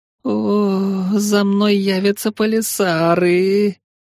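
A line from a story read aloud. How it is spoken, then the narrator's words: Wail. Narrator (Russian): взвыла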